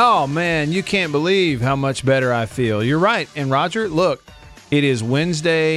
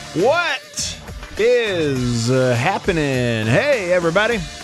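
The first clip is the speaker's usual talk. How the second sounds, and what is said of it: Goofy exaggerated radio announcer voice. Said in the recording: “You had your radio voice on there, man. ... Do my radio goober voice.”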